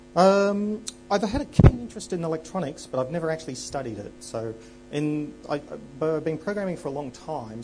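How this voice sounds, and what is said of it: Australian accent. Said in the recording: “I'm from Sydney, Australia, as you could probably tell from my accent.”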